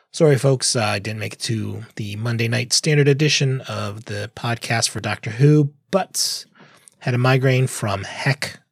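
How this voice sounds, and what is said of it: Hoarse, failing voice. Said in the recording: “lose my voice.”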